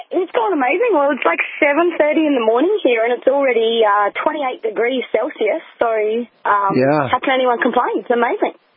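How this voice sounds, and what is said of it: Distinctive foreign accent. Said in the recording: “I just love that accent.”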